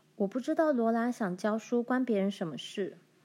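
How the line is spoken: Cold. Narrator (Chinese): 梅丽冷冷道

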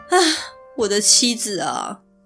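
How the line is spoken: Sorrowful sigh. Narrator (Chinese): 小队皇子，想到他的妻子为自己死在了海上，心里感伤了起来，就叹气道

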